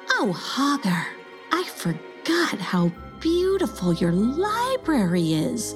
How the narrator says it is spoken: gasped Forgetta

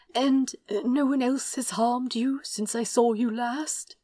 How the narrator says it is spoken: He asked anxiously

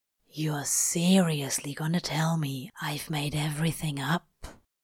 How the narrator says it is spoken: He asked softly

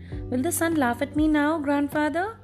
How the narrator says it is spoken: she asked anxiously

